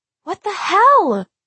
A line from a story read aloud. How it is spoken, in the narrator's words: V shrieked